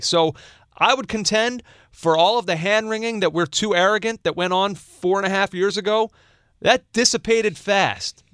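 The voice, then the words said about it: American accent. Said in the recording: “listeners who are not American, just based on the fact of your accent.”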